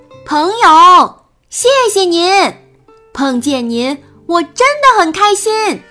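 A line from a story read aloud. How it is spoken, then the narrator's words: Loud shout. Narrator (Chinese): 皮皮 大声地喊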